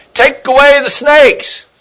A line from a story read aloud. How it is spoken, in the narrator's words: They cried out